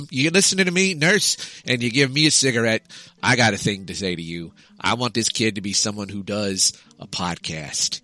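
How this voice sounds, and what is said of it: Put-on New York-ish accent. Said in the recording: “I think this sounds like a New York accent, but it's not.”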